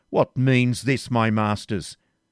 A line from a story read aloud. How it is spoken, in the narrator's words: with an air of inexpressible dignity and exclaimed